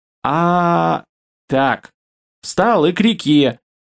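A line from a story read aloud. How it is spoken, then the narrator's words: Commanding order. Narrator (Russian): командным тоном озвучил приказ Шарик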